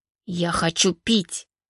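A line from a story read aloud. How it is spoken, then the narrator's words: Angry hiss. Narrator (Russian): зло прошипела Валерия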